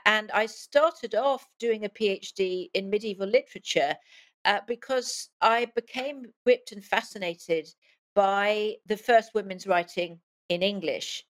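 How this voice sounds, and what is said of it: English accent. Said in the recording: “you can hear from my voice that I'm a transplant from England”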